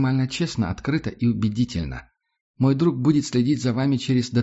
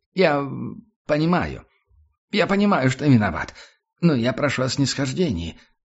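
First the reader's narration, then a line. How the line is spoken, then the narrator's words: Fat man babbling. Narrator (Russian): залепетал толстяк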